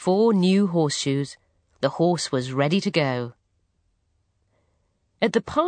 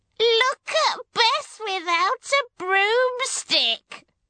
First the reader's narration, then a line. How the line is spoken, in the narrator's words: they said, and cackled with laughter